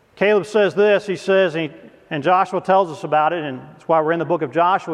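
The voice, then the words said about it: Tennessee Southern accent. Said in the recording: “Come from Tennessee ... Just listen to the accent ... you can still hear it”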